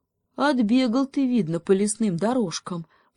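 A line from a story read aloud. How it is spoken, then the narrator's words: Sighing hare. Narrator (Russian): вздохнул заяц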